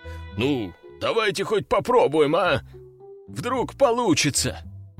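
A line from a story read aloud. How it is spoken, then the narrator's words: Pleading. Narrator (Russian): взмолился он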